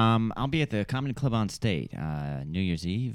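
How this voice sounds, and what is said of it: Usual voice. Nothing is said of it.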